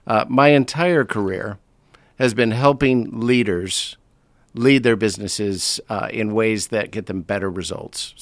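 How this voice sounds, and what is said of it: American accent. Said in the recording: “you can hear from the accent, I'm not from London. ... I was born in the States”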